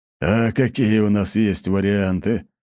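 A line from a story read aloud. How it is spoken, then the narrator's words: Gloomy snort. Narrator (Russian): угрюмо хмыкнул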